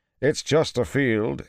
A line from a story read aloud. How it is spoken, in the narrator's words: he said at last, too loudly